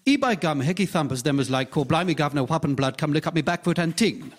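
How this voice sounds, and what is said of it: Rapid mix of put-on accents. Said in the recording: “try a different accent”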